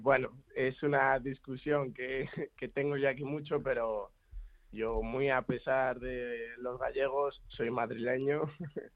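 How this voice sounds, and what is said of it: Spanish with a Galician accent. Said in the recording (Spanish): “con ese acento que tienes... escúchalo como habla, que este es galego... el acento se me ha pegado un poco”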